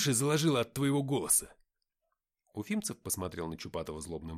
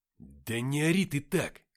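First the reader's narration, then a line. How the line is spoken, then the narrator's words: Hissing. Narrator (Russian): прошипел на него Чупатый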